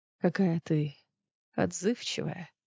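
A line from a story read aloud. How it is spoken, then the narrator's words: Purring. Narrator (Russian): промурлыкал он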